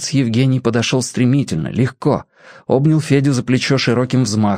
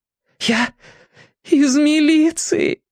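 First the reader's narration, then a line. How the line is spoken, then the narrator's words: Breathless, then crying. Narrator (Russian): выдохнул он и заплакал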